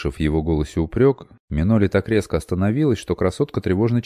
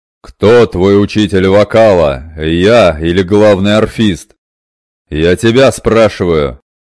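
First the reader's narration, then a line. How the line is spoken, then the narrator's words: Deafening roar. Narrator (Russian): Так оглушительно взревел Шаганар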